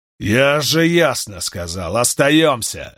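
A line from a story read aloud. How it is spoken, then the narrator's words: Barking angrily. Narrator (Russian): рявкнул на него Борнхальд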